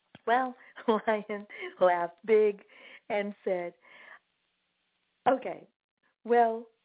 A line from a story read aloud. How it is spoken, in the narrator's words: laughed the big lion